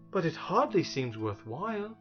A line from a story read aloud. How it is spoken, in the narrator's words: said Milo softly